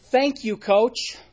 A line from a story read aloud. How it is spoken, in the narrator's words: the team would shout back in unison